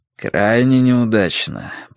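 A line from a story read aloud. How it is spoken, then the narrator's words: Mutter. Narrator (Russian): пробормотал первый министр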